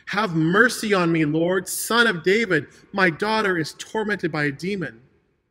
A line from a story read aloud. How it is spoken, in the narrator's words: a Canaanite woman no less, came up to Jesus and started shouting at him